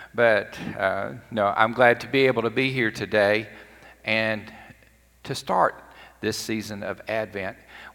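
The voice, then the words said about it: Slightly scratchy, hoarse voice. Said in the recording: “my voice is a little bit scratchy today, I may or may not have yelled at the TV some yesterday”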